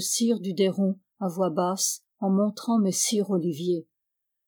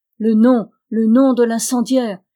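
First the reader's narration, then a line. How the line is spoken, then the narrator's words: Crowd shouting everywhere. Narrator (French): criait-on de toutes parts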